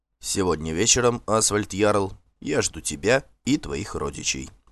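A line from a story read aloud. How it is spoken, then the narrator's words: Calm. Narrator (Russian): спокойно сказал Торбранд Конунг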